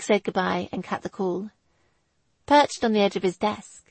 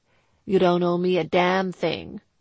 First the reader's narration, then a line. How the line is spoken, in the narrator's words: Dan's voice boomed back